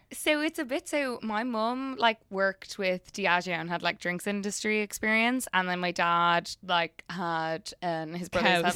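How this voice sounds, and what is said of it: South Dublin Blackrock Irish accent. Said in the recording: “You have a Blackrock accent, by the way. Even when you, I was like, yeah, you're from Dublin ... Blackrock is D4”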